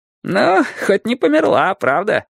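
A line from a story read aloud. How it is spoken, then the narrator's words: Giggle. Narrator (Russian): хихикнул он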